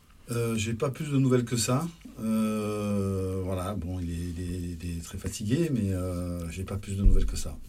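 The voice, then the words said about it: Sunny regional French accent. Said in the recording (French): “avec ton accent, tu nous apportes le soleil”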